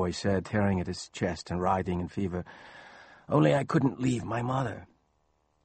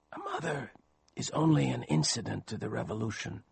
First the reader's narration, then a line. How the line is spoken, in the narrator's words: he whispered, less and less audibly